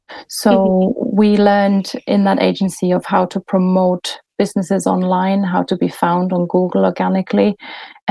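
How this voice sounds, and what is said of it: German accent. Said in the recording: “I was looking after the German clients. You might have picked up my accent by now.”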